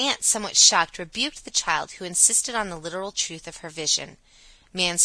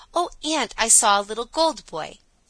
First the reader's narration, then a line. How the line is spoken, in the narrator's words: She cried to her aunt